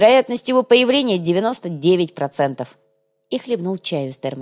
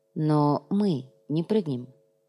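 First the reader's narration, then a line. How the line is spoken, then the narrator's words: Quiet. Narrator (Russian): негромко произнес Сантьяго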